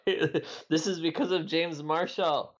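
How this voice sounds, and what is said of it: Bad Borat-style accent. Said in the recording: “That's a horrible Borat accent.”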